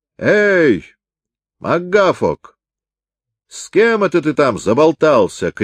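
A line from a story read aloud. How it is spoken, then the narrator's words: Shout from below. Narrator (Russian): крикнул ему в это время снизу капитан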